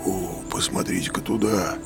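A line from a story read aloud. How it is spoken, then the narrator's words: Awed whisper. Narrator (Russian): прошептал Дженнингс в благоговейном страхе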